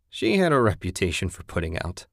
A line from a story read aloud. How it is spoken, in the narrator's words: Ted laughed